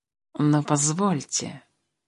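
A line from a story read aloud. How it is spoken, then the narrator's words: Purring cat. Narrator (Russian): мурлыкнул кот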